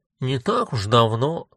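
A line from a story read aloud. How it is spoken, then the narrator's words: Grumbled, said by a woman. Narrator (Russian): проворчала вторая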